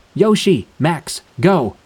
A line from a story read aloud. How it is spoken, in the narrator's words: yelled